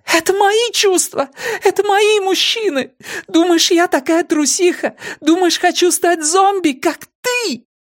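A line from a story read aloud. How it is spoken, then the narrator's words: Exhausted, sobbing. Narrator (Russian): обессиленно, не давая себе отчета в своих словах, сотрясаясь от всхлипов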